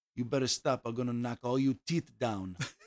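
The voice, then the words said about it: Imitated accented English. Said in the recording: “She still had an accent”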